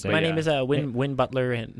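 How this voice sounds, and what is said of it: Imitates another person's voice. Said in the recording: “A Wynn Butler impersonation”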